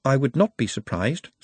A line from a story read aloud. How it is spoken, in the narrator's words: said Nut calmly